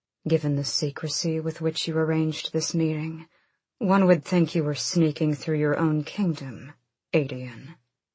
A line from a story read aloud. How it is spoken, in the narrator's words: Someone said from within, in a dry, cold voice